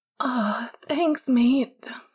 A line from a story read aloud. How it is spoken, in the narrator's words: James said through a yawn